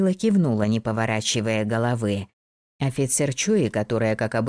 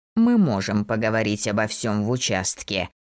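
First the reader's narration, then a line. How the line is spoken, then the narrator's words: Growled. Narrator (Russian): прорычал Локуст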